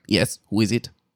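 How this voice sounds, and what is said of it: Weird character voice. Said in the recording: “Doing a weird voice.”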